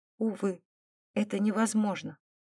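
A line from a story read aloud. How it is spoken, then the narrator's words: Desperate whisper. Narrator (Russian): прошептала она, отчаянно мотая головой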